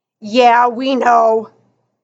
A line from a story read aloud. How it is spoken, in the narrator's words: growled Missing Tooth